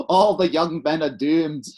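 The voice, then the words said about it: Bad put-on Scottish accent. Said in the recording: “Why are you always doing an accent? ... I'm doing a terrible Scottish accent.”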